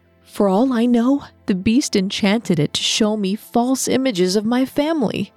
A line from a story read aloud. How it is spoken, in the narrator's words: exclaimed